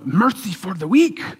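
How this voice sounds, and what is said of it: Poor put-on Asian accent. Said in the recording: “that's a poor accent, but it sounds like that. You know, he's from Asia.”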